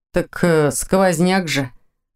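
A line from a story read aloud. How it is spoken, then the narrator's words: Snort. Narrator (Russian): хмыкнул Ваня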